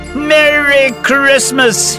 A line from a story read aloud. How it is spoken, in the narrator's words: shouted